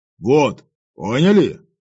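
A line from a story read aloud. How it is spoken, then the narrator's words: Menacing question. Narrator (Russian): грозно спросил я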